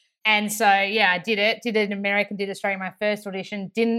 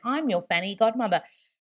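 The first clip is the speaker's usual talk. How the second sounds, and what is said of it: Put-on Australian accent. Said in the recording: “I have to do it in an Australian accent. Can you imagine an Aussie accent?”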